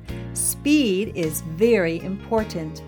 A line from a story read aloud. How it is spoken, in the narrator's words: said Mac